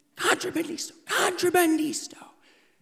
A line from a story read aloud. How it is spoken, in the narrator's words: screaming